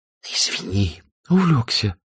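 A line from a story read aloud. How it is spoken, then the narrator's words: Hissed reply. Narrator (Russian): прошипел Азерофель в ответ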